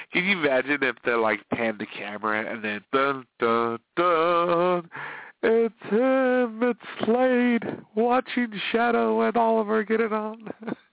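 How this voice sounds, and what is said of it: Congested, stuffy nasal voice. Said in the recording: “My voice is so congested. I mean, my nose and my sinuses”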